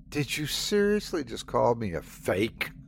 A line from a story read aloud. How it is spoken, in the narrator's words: Sandy spat